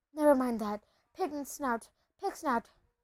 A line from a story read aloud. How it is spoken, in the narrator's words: panted Harry